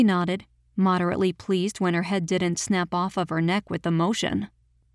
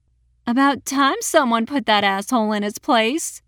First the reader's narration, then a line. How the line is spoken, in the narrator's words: cackled